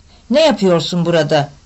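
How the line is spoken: Harsh voice. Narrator (Turkish): dedi sert bir sesle

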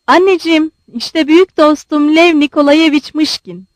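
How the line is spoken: Plain. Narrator (Turkish): dedi

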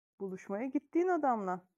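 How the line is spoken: Plain. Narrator (Turkish): dedi Viktor

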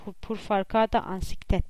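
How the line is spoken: Boy's moaning, inhuman voice. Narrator (Turkish): dedi oğlan çocuğu inler gibi, insancıl olmayan bir sesle

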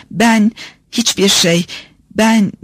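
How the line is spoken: Stammered. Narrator (Turkish): diye kekeledi

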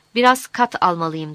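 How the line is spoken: Plain. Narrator (Turkish): dedi

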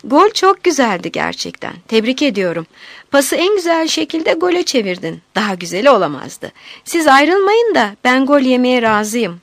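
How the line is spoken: Laughing. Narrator (Turkish): Kenan gülerek

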